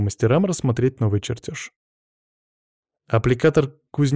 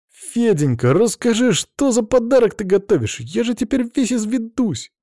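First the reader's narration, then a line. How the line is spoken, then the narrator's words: Exclaiming. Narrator (Russian): воскликнул Петя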